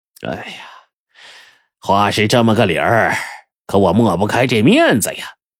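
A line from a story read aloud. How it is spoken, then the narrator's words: Sighing. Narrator (Chinese): 撒贝勒叹了口气说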